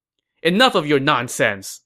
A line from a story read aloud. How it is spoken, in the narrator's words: Ma Su snapped